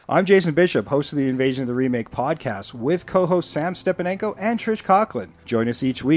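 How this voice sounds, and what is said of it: Usual voice. Nothing is said of it.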